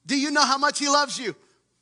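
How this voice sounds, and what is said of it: Shouting passionately. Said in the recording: “I'm not shouting because I'm angry. I'm shouting”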